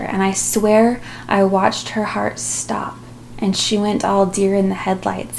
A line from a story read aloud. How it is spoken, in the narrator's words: said